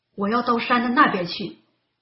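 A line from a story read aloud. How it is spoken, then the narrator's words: Roaring wind. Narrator (Chinese): 狂风怒吼着说道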